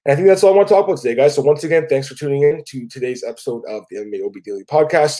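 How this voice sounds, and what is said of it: Sick voice, cracking at times. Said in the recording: “I apologize for my voice. I'm a little under the weather right now ... I usually get a little bit sick. So I apologize for my voice there, cracked a few times.”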